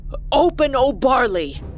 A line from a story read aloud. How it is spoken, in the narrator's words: he shouted at the top of his lungs